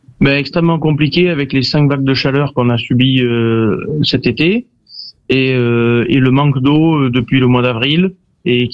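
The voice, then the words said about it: Southwestern French regional accent. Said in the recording (French): “Mais on l'entend à votre bel accent.”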